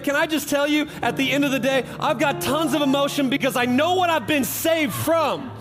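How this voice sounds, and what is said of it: Loud, shouting preaching voice. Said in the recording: “So I got to shout a little bit. If you ever wonder why I raise my voice from go”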